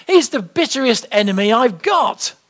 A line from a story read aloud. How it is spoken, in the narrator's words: exclaimed the old preacher